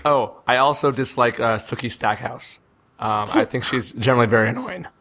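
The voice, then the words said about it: Hoarse, weakened voice. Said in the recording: “the losing your voice ... Taking away my own ability to speak”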